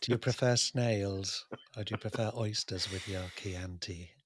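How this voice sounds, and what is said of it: Anthony Hopkins impression, Lecter-like. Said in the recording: “Anthony Hopkins doing an impression of Sir Laurence Olivier ... bit less of the Lecter, please.”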